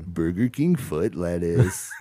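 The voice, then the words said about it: Imitates another person's voice. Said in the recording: “I feel like that's a pretty good impression ... that's pretty good ... That's spot on.”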